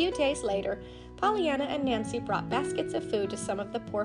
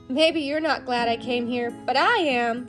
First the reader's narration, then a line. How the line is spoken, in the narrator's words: said as she skipped merrily